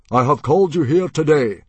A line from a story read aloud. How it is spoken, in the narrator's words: boomed Stoic